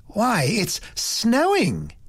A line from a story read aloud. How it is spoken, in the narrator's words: exclaimed in great surprise